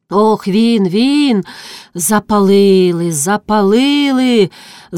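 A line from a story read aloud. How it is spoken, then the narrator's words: Hoarse, muffled voice. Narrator (Ukrainian): защепіла своїм глухим голосом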